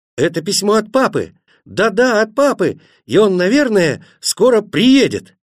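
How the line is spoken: Group shouting. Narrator (Russian): Тогда они закричали

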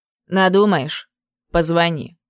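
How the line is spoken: Curt and cold. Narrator (Russian): сказал коротко и все так же холодно

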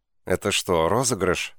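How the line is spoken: Confused question. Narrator (Russian): спросила я, растерянно

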